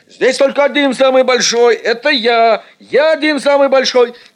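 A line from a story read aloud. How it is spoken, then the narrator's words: Strong boy shouting. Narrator (Russian): кричал Эд, первый силач нашего класса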